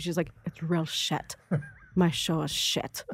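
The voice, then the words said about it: Weak put-on Scottish accent. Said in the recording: “I have a terrible Scottish accent”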